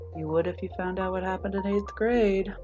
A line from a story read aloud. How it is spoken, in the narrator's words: Sero mumbles sleepily